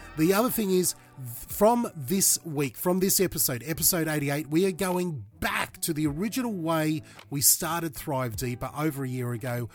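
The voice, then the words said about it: Slightly raspy voice. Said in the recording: “I've had the flu. You might notice from my voice it's a little bit raspy.”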